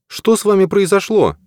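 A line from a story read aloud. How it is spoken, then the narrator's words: Anxious question. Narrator (Russian): взволнованно спросила она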